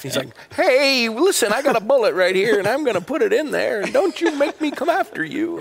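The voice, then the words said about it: Imitates a TV character's voice. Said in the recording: “not doing a very good Barney Fife impersonation”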